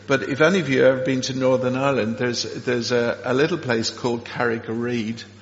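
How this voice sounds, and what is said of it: Irish accent. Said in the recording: “quite a lot of Irish accents here at St. John's ... if you pick up from my accent, I come from the same part of the water”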